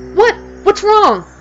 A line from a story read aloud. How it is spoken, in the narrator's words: she cried